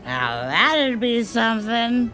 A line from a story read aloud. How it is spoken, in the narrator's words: slurs